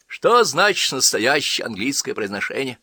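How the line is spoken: Sighed. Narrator (Russian): вздохнул тот

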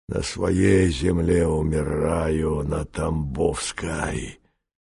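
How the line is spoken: Wheezing, rasping. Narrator (Russian): Он хрипел

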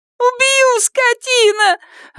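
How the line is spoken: Shrieking and sobbing. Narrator (Russian): вереща и рыдая

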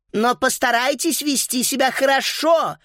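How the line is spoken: Shouted after. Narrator (Russian): крикнула им вслед секретарша

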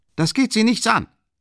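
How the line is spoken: Unnaturally loud shout. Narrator (German): schrie er endlich unnatürlich laut

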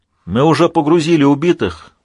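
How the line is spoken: Shout. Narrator (Russian): прокричал Рубинштейн

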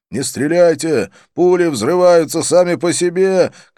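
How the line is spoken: Shout in Marathi. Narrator (Russian): крикнул один из полицейских на маратхи

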